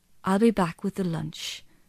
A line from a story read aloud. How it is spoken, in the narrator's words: she said kindly